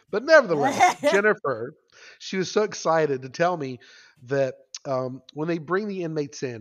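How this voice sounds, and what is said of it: Rural Boone County accent. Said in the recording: “my Boone County hick accent coming through”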